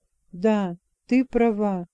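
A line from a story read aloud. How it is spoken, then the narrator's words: Calm. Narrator (Russian): спокойно сказал он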